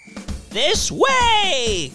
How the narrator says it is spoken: cried Mrs

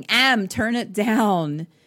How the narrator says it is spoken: he starts yelling

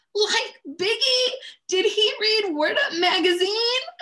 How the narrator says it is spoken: my four-year-old screams

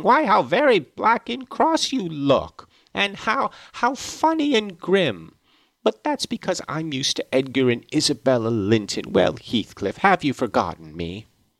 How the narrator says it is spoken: burst into a laugh, exclaiming

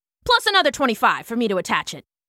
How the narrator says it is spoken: Slip added quickly

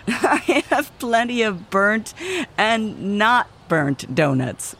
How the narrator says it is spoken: laughed Susie

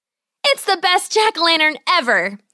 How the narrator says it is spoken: she exclaimed

